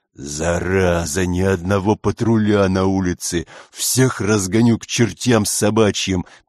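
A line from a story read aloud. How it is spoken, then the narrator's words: Growled like woken bear. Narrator (Russian): прорычал начальник, словно разбуженный медведь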